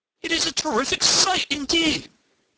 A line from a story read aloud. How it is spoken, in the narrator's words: cried Henry